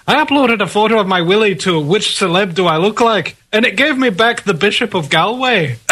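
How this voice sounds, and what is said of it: Imitates another person's voice. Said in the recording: “let me see if I can do his accent”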